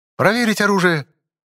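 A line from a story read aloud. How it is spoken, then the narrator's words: Shouted command. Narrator (Russian): выкрикнул Ло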